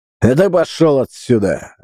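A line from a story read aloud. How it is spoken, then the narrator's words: Barked. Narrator (Russian): рявкнул Устин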